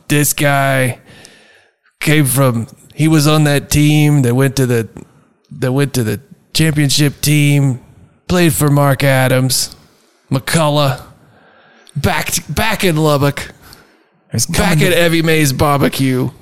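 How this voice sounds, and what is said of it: Awful put-on accent. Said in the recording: “I don't know what accent I'm doing, but it's awful.”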